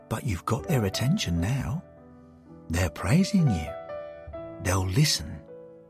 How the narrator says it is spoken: He said gently

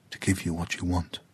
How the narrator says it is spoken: Kua'ai whispered to the tree

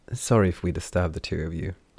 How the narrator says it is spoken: she said with a sigh

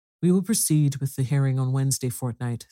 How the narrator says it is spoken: says the Chancellor

